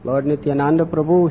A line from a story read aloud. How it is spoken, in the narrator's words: he said